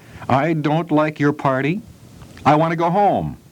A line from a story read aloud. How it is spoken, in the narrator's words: Nellie cried